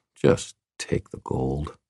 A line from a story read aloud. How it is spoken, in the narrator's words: I muttered to myself